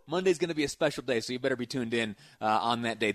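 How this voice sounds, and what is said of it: Excited, upbeat voice. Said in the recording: “This excitement that you hear in my voice right now”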